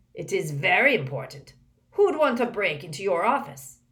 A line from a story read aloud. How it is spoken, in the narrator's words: growled Moody